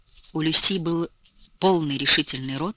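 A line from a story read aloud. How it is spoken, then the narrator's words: Soft breathy hesitant speech. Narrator (Russian): говорила негромко, с придыханием, немного сбивчиво, словно ей не хватало уверенности в том, что ее хотят слушать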